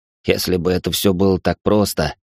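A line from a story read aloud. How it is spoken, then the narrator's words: Wry snort. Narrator (Russian): хмыкнул Алекс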